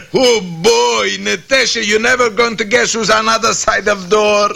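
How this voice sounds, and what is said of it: Boris Badenov's put-on dialect. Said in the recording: “leave the dialect to me”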